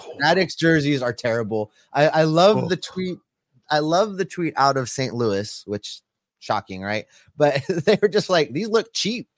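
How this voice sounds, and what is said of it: Hoarse voice, close to giving out. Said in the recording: “My voice is about to go. I can feel it going ... they have allergies even in Hawaii, huh?”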